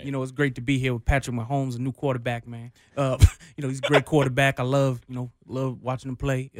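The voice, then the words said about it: Aqib Talib impression. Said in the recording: “best Talib impression ... That was very good.”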